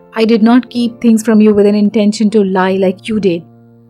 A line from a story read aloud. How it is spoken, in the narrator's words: Puneet said in a cold, flat tone, which meant suppressed anger, loads and loads of anger